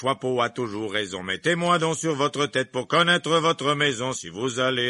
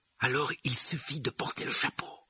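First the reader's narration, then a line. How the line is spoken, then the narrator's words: Whispered in ear. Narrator (French): murmura Ron à l'oreille de Harry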